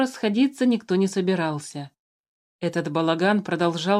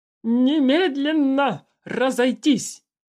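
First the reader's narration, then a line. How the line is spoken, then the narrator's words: Hoarse yelling. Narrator (Russian): до хрипоты орал старший охранник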